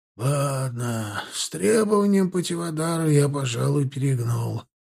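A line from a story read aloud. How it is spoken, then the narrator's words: Old-man sigh. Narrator (Russian): вздохнул по-стариковски Гретбэнк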